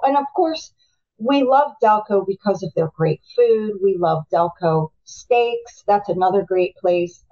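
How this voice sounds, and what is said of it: Delaware County Philadelphia-area accent. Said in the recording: “I love my accent, and I'm not going to get rid of it. ... most people will know you're from Delco just by the way you talk.”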